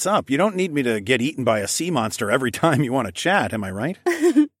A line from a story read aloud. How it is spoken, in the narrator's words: Amaya giggled